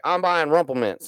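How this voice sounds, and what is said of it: Imitates another person's voice, badly. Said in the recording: “I'm doing a bad Beeman accent.”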